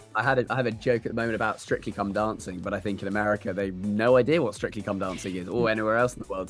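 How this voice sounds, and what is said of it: Posh English accent. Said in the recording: “people might be able to tell from your accent, but you are self-admittedly a bit posh”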